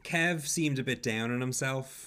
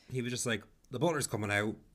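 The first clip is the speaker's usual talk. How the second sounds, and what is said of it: Imitates another person's accent. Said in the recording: “I'm doing Carol's accent as well.”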